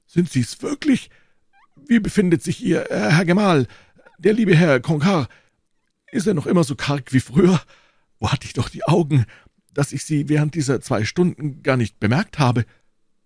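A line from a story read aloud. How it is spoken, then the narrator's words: Stammered. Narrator (German): stammelte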